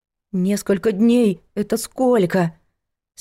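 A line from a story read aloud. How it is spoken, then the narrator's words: Trembling voice. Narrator (Russian): спросила Надка против воли дрожащим голосом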